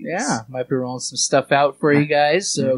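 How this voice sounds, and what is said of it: Close-miked public-radio host voice. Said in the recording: “That's the most NPR voice you've ever had. ... I got really close to the microphone.”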